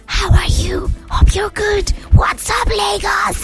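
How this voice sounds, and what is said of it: Loud whisper. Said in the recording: “There's loud whisper... But the loud one is”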